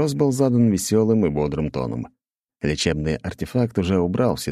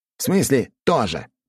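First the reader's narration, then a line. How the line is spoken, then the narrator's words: Indignant reply. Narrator (Russian): возмущенно ответил Антон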